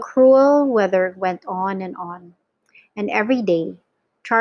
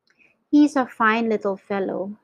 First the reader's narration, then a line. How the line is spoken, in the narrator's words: said Grandpa George